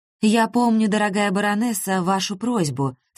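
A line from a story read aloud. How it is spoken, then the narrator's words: Sad and quiet. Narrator (Russian): сказала Ольга Петровна печально и тихо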